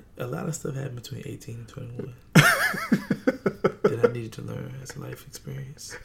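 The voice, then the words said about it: Speaking very low and quiet. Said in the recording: “Why the fuck are you talking so low, bro? ... Why are you talking so low? This is not the quiet storm.”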